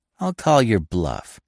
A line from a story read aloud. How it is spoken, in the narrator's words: said Miss Peavy firmly